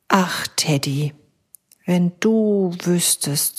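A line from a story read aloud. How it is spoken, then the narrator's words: Sigh. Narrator (German): seufzt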